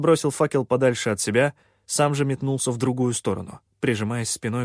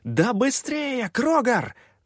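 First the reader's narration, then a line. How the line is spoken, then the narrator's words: Full-voiced yell. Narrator (Russian): заорал уже в полный голос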